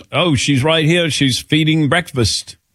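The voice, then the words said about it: Imitates another person's accent. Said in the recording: “How was that accent?”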